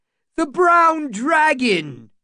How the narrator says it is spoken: someone shouted

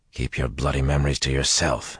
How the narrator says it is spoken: he snarled at Luce Theron

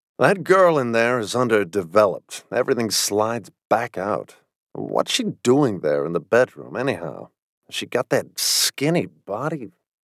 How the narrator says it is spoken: From farther off, Sam Barrows mutter

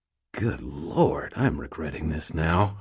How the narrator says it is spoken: muttered

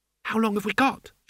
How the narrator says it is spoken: said nervously

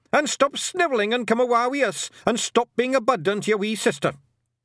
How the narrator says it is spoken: shouted Rob Anybody

